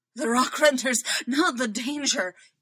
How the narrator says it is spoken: he pants

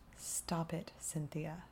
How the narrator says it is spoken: he says, almost under his breath

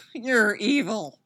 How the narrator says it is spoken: Styles moans

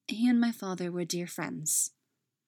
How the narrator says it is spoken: Peggy said smoothly

